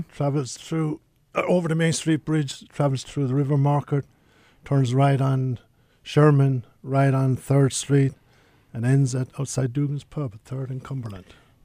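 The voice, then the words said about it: Noticeable non-local accent. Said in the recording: “I can't place your accent, but I'm thinking Blytheville ... you throw that accent at us ... I'm living here 43 years, and I still haven't lost the accent”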